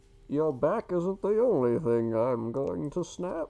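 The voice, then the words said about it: Imitation of the villain Bane's voice. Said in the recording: “I'm Bane ... That's not bad. I should have asked you to do that impression ... Yeah, that was pretty good.”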